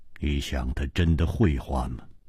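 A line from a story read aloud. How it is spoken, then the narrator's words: Cold. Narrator (Chinese): 姬冰燕冷冷地说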